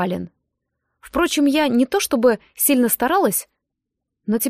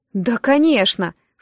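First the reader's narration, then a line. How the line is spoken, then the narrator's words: Snorted. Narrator (Russian): фыркнула Агава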